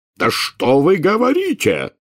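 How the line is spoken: Furious bark. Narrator (Russian): в бешенстве рявкнул премьер-министр

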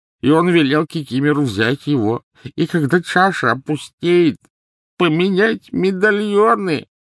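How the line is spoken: Sobbing turning to grating. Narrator (Russian): Рыдания Кикимера обратились в подобие скрежета

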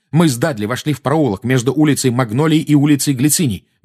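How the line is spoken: Fast, suppressed anger. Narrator (Russian): быстро заговорил Гарри, стараясь обуздать свою злость

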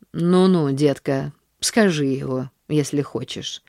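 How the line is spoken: Sighing. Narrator (Russian): вздохнула она

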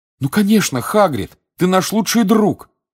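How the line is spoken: Exclaimed. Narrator (Russian): воскликнул Гарри

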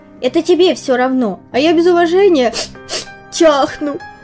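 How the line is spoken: Whining. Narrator (Russian): хныкал комар

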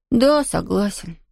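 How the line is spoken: Sighing. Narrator (Russian): вздохнул Том

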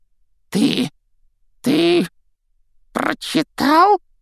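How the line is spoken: Forced, strained. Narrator (Russian): выдавил из себя Филч

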